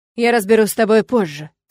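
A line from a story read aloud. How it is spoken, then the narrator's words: Through gritted teeth. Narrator (Russian): цежу сквозь зубы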